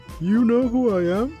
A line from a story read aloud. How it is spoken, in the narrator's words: ask shakily